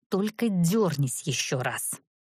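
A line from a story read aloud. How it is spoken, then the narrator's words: Hissed through clenched teeth. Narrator (Russian): процедила я, не разжимая ни зубов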